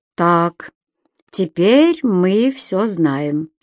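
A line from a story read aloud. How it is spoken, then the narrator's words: Plain. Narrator (Russian): сказал Брэд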